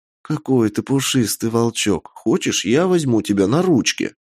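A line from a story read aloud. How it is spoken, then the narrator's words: Whisper. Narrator (Russian): прошептал он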